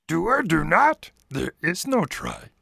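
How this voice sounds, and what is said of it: Yoda impression. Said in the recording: “Do your best Yoda voice.”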